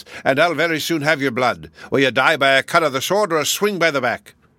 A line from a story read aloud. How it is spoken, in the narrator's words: he roared